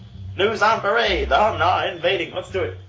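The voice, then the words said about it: Old-time newspaperman announcer voice. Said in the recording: “Read it in a newspaperman voice.”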